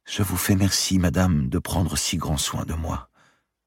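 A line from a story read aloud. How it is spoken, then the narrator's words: Tearful murmur. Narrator (French): murmura, les larmes aux yeux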